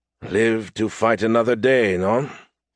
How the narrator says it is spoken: He grunted, less than happy

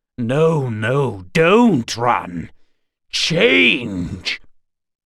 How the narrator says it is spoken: shouted a string of terrible words, syllables to clot the blood and crawl the skin

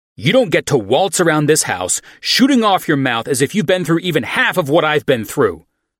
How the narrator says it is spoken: I shouted

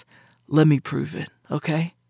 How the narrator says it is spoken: I sighed

